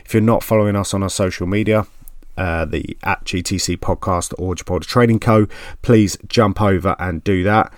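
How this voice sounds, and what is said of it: Essex English accent. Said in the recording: “my Goppin Essex accent”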